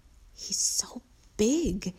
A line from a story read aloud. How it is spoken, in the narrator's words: whispered